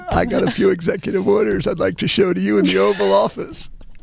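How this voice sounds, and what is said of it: Creepy Bill Clinton impression. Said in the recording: “Slick Willie ... former president ... So creepy ... you really ooze it”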